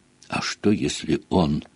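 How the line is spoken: Quiet whisper. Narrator (Russian): тихо прошептала Гермиона

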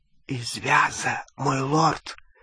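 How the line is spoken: Whisper. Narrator (Russian): прошептал Малфой

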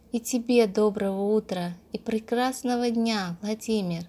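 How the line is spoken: Quiet, almost whispered. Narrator (Russian): Тихо, почти шепотом ответила Анастасия

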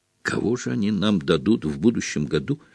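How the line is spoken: Glum question. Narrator (Russian): уныло вопрошал Симус Финниган

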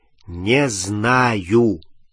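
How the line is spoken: Drawling. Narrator (Russian): протянул Рон

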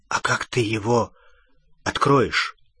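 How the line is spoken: Frightened question. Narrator (Russian): испуганно спросил Рон

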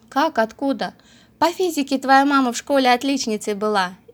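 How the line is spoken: Loud laughter. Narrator (Russian): захохотал

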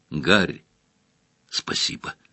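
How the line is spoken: Mumbling. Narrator (Russian): бормотал Джордж

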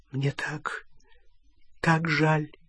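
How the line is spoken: Whisper. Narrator (Russian): прошептала Гермиона

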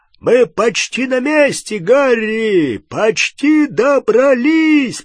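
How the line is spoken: Shouting. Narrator (Russian): прокричал Хагрид

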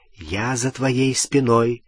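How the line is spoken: Whisper in ear. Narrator (Russian): прошептал он в ухо Гермионы

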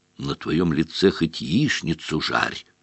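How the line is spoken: Whisper. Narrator (Russian): шепнул Рон

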